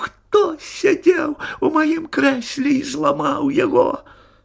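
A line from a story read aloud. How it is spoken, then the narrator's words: Squeaky cry. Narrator (Russian): Мишутка запищал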